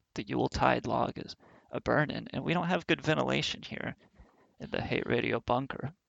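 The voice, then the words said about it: Hoarse, fading voice. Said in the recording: “now I'm losing my voice”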